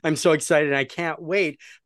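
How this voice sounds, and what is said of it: Excited, enthusiastic voice. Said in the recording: “You can hear it in my voice.”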